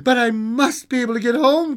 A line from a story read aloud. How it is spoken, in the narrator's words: cried the little girl